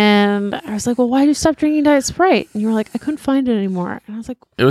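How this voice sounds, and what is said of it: Usual voice. Nothing is said of it.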